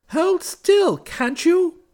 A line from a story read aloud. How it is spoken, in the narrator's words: cried the kinglet